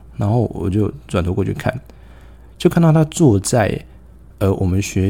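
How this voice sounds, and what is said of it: Usual voice. Nothing is said of it.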